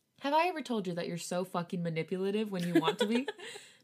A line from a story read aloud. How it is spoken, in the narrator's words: Namjoon laughed